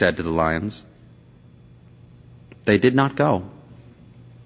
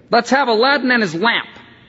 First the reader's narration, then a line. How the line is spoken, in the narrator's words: snapped